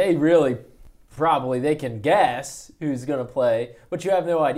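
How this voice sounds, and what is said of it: Usual voice. Nothing is said of it.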